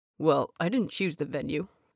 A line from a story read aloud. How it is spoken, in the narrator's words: muttered Angel, embarrassed